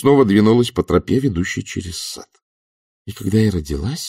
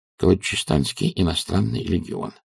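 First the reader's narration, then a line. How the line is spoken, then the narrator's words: Muttering. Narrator (Russian): пробормотал Альберт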